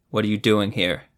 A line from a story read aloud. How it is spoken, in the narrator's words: Zevo asked flatly